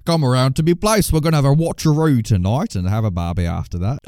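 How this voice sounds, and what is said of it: Put-on Australian accent. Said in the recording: “that was nearly as good as an Australian accent as what's in this film”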